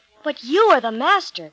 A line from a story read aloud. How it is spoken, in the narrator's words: cried Peter